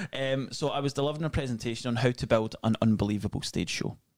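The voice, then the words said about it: Scottish accent. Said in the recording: “And I'm Scottish. Mm. Who doesn't love a Scottish accent?”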